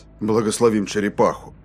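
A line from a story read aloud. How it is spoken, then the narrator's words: Muttered. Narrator (Russian): Пробормотал Рейнольдс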